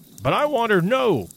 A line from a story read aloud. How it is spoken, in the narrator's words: shrieked the guide